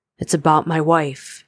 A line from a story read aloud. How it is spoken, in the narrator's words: he confided brokenly